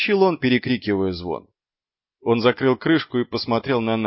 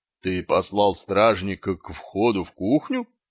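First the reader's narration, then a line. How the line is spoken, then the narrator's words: Plain question. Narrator (Russian): спросила госпожа Сибилла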